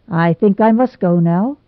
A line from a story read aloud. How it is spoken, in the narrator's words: he said